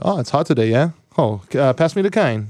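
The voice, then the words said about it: Hawaiian Pidgin accent. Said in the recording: “When I talk to people from Hawaii, I start speaking a little bit of pidgin English.”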